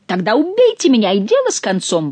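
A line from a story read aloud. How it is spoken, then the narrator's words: Exclamation. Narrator (Russian): воскликнул Горанфло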